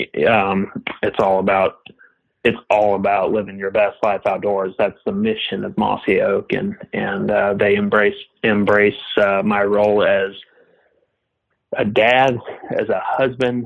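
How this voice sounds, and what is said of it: Speaks with a regional accent. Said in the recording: “I just laughed the accent, but they're working on me for that... I have an accent.”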